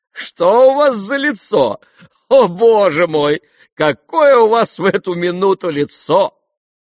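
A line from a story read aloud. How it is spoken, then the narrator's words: Laughing, shouting. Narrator (Russian): Она смеялась и кричала ему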